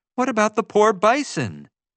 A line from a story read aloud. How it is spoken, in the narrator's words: Summer exclaimed